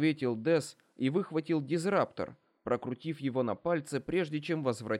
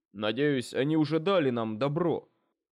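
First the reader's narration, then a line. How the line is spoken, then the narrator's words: Grumbling. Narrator (Russian): проворчал Адонар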